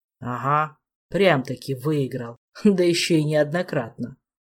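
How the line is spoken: Philosophical snort. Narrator (Russian): Философски хмыкнул толстяк

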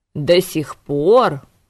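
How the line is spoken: Governor roaring. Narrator (Russian): взревел наместник

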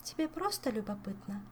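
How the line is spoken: Sad. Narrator (Russian): грустно уточнила нимфа

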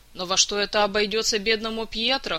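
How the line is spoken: Skeptical snort. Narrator (Russian): хмыкнул Саня

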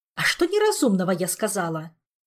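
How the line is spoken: Anxious snapping. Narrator (Russian): огрызнулась королева с тревогой

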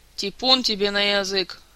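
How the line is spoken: Offended interjection. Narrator (Russian): обиженно вставил Силантий

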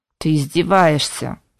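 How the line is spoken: Grumbled. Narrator (Russian): проворчал Толик

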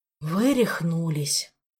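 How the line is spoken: Doomed sigh. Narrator (Russian): обреченно выдохнул Рельма

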